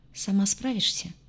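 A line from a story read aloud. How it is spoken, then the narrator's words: Quiet question. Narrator (Russian): негромко поинтересовался тот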